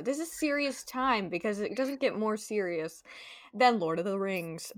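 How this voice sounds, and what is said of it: Newscaster-style serious delivery. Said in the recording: “Do I sound like a newscaster? ... A little bit.”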